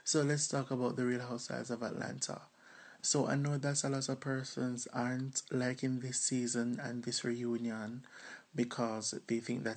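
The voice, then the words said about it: Jamaican accent. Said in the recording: “all the way from Jamaica... y'all better get into this accent. That accent is everything”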